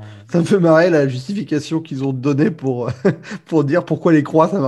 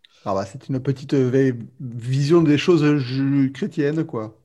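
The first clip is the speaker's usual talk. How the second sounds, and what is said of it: Put-on southern French accent. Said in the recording (French): “Je sais pas pourquoi je prends l'accent du Sud.”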